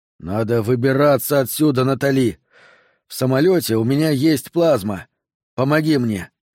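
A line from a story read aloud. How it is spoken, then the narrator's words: Groaning in pain. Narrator (Russian): Сол застонал, когда они начали поднимать его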